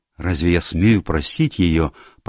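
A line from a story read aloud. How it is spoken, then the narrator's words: Young man mumbling. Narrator (Russian): пробормотал молодой человек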